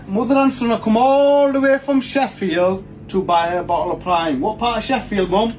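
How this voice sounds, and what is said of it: Very thick regional accent. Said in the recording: “his accent. It was very thick.”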